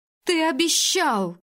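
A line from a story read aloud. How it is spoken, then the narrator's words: Anguished girl screaming. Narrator (Russian): надрывно закричала девушка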